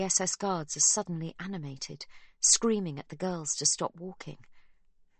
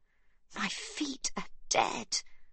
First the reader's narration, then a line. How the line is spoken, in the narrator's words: groans Livy